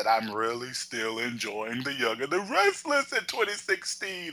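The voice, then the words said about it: Imitates another person's voice. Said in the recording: “in my Oprah voice.”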